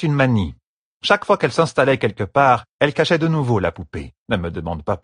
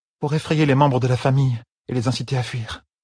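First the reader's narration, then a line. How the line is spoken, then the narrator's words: Whispered. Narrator (French): murmura Elaine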